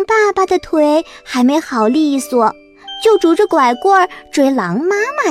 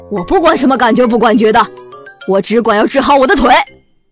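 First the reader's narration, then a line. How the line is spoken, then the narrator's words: Roaring. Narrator (Chinese): 狼爸爸也吼起来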